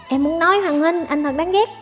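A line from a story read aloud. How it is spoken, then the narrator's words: Angry. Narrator (Vietnamese): Cửu công chúa tức giận nói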